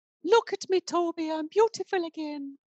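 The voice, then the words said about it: Impression of Elizabeth Bathory film line. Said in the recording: “That's Edward Pitt playing Elizabeth Bathory ... I'm just a little bit frightened by that impression”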